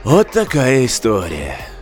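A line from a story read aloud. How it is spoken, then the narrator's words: Sighing. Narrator (Russian): вздохнул Джек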